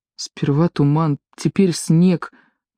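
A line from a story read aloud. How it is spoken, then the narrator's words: Muttering. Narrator (Russian): бормотал Паки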